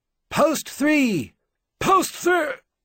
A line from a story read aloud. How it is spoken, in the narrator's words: he shouted